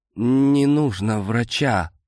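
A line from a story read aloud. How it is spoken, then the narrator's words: Strained moan. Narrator (Russian): простонал я не своим голосом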